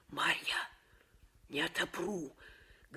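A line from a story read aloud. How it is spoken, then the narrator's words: Whispering. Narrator (Russian): говорила она шепотом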